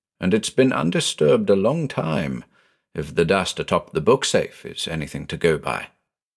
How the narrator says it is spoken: I muttered

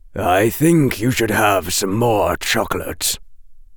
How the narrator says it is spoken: he said, and his voice was grave

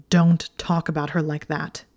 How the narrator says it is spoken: he snarled

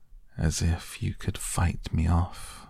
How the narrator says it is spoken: he said gently

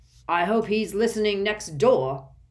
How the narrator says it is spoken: bellowed Mr

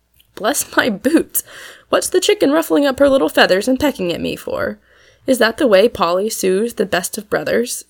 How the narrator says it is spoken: said Tom, still laughing

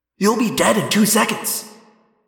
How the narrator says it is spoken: I snapped

